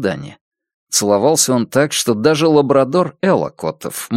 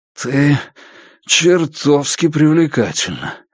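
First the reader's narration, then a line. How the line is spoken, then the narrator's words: Hoarse exhale. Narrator (Russian): хрипло выдохнул Пес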